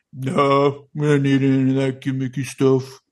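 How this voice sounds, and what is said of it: Imitates another person's voice. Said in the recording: “Brilliant. Brilliant impersonation of Brock”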